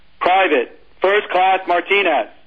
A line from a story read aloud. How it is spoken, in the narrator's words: the gunny yelled